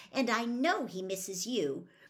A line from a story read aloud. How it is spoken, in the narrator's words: Hermione said impatiently